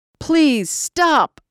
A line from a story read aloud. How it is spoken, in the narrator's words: I screamed as the bat came down, shattering the bones of my ribs